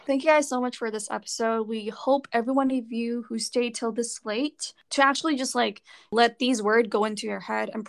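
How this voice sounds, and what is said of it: Hoarse, deep voice. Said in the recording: “sorry about my voice. It's kind of hoarse... it just makes my voice sound so deep, kind of sexy”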